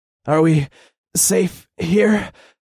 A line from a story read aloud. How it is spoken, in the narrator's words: I asked as I panted